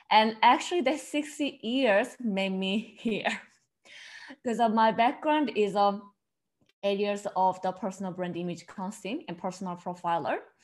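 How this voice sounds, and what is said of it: South Korean accent. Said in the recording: “they probably catch from my accent, I'm originally from South Korea”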